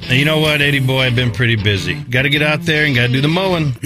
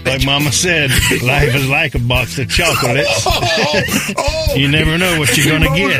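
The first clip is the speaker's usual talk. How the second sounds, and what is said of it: Forrest Gump character impression. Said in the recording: “my best Forrest Gump impression”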